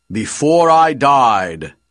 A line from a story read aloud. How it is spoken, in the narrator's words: Anorak says, speaking in a much deeper voice